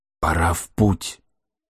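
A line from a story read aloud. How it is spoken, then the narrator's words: Whispered. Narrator (Russian): прошептал охотник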